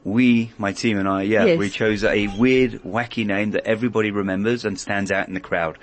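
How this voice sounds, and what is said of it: British English accent. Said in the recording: “you sound so British. You don't sound Israeli at all.”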